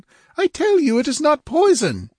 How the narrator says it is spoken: cried

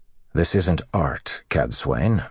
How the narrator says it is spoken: Rand said dryly

